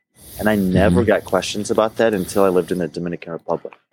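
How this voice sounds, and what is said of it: Distinctive accent. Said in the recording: “I get questions all the time about where my accent is from”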